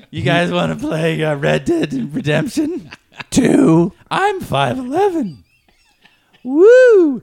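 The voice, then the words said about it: Imitates another person's voice. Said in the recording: “your impression?”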